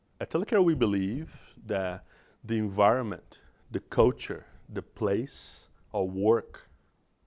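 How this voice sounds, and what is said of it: Foreign accent. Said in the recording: “a foreign guy with an accent”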